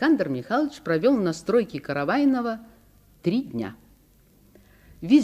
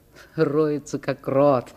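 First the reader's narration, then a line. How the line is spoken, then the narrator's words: Laughing. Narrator (Russian): смеялись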